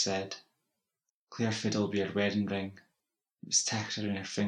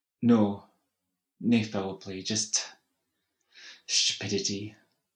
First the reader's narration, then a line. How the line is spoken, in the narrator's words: she sighed